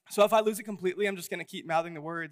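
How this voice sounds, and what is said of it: Hoarse, strained voice. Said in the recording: “if you can hear it, I'm losing my voice a little bit.”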